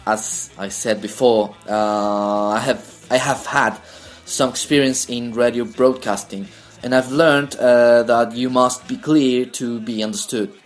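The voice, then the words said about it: Non-native speaker with British-influenced accent. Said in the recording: “I'm more used to listen to British accent, the formal British accent, or the more clear British accent. So I do those sounds when I speak English”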